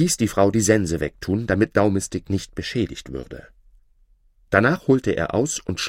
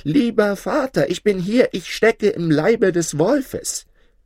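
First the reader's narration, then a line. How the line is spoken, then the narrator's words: Called out. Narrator (German): Daumistick rief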